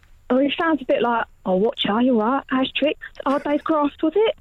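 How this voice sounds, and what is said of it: Victorian workshop owner character voice. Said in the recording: “You sound exactly like my wife doing an impression of me ... the Victorian workshop owner kind of overtook”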